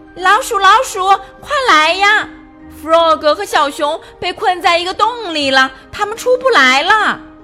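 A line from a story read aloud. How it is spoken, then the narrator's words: Loud shrieking. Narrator (Chinese): 鸭子用最大的声音尖叫着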